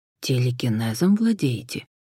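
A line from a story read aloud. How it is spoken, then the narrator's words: Impulsive whisper. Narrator (Russian): не выдержав, шепотом уточнил Хосе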